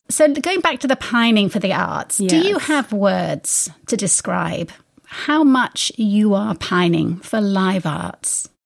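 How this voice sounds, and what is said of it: American speaking in English accent. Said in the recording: “I'm actually from Arkansas, but I perfected this English accent.”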